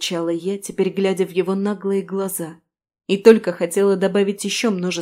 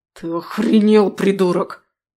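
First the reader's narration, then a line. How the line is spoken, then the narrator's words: Hiss. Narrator (Russian): прошипел эмпат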